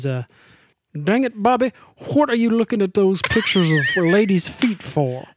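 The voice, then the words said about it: Cartoon character voice dropping R's. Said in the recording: “he doesn't drop his R's as quite as much as that ... old time lawyer ... House of Cards accent ... Foghorn Leghorn”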